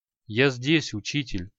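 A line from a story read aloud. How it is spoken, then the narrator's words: Quiet. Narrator (Russian): негромко произнес Креол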